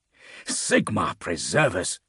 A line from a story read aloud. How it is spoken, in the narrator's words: Aetius hissed